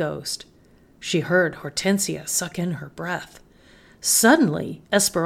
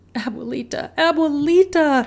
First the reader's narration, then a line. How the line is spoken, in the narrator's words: cried